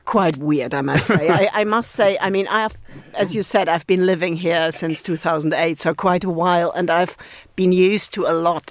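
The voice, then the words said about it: Non-British foreign accent. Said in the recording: “you are nevertheless from a country, as people will have gleaned from your accent,”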